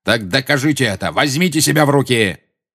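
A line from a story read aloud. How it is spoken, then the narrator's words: Barked. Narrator (Russian): рявкнул Снег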